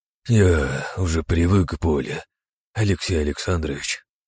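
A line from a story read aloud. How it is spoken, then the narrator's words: Sighing. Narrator (Russian): вздохнул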